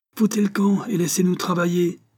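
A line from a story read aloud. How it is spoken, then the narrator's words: Yelled. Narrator (French): hurla Ginou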